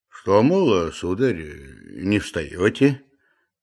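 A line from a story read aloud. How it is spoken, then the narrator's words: Soft reply. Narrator (Russian): мягко отозвался Захар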